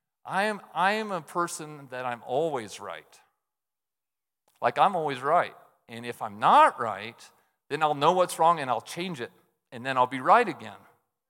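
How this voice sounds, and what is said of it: Sarcastic tone. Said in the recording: “So you hear that? I'm being sarcastic.”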